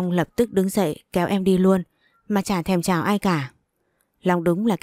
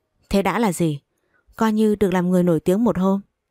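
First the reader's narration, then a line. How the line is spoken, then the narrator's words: Laughing loudly. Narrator (Vietnamese): Long cười lớn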